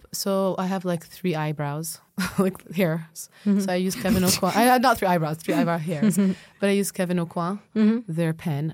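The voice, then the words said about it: Slight foreign accent. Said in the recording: “you have a little bit of an accent ... you sound beautiful when you pronounce all ... Of these”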